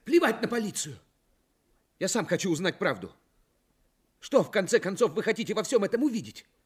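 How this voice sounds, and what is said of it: Shouting angrily. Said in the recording (Russian): “не кричи”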